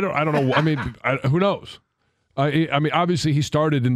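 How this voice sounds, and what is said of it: Usual voice. Nothing is said of it.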